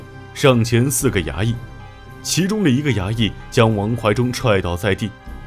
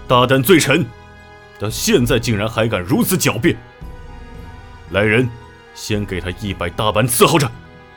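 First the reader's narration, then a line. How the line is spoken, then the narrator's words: Furious roar. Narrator (Chinese): 社科怒吼道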